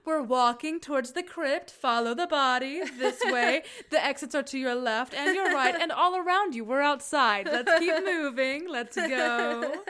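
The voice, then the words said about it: Flight attendant announcement voice. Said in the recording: “turns into a flight attendant and is like ... That's my number one impression. ... That is a very good. I thought that you were Marsha Cross. ... Marsha Cross as a flight attendant specifically.”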